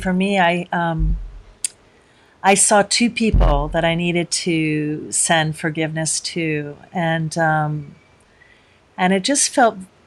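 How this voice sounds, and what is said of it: Choked-up, emotional voice. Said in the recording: “I'm getting all choked up here”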